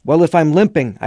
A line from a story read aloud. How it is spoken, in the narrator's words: shouted